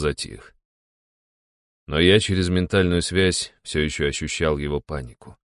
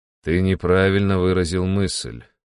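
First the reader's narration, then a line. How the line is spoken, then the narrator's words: Calm speech. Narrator (Russian): спокойно произнес я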